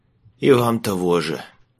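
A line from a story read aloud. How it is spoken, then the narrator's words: Rasping. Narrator (Russian): прохрипел в ответ Майлз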